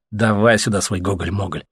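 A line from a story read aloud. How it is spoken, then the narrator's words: Grumbling. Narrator (Russian): пробурчал Леха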